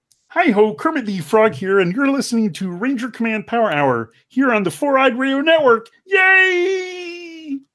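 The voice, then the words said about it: Kermit the Frog impression. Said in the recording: “can I impersonate Kermit? I can ... That was terrifying.”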